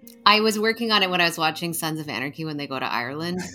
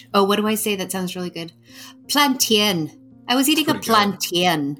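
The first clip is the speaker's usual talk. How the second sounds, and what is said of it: Put-on Northern Irish accent. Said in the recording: “That's my Northern Ireland. ... Really good, Ireland.”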